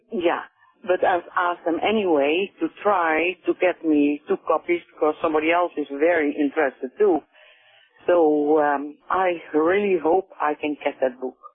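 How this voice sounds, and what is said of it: Dutch accent. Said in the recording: “I hear an accent in you. ... From Holland.”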